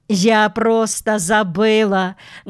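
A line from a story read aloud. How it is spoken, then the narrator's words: Laughing speech. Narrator (Russian): говорила Вера, смеясь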